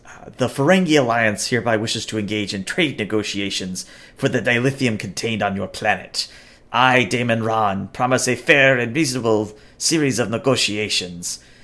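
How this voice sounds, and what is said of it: Good Ferengi alien character voice. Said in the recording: “That was actually a good Ferengi voice.”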